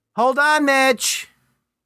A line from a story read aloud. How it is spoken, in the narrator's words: From behind the door, called out